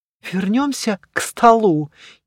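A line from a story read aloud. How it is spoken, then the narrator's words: Uncertain suggestion. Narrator (Russian): неуверенно предложила Мириам Дутель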